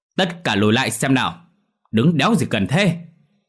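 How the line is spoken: Loud barking shout. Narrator (Vietnamese): lớn tiếng quát

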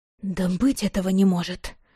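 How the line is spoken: Muttered aloud. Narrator (Russian): Вслух пробормотала

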